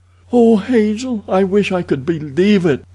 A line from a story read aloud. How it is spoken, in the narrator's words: moaned the girl